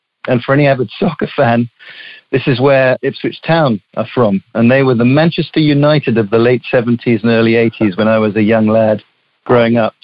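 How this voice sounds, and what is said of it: Southeast English accent. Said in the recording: “your accent there, you got to tell me ... I'm from the southeast of England, near London. It's a region called Suffolk.”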